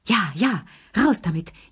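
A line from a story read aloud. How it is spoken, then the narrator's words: Gasping old voices. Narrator (German): japsten die drei Alten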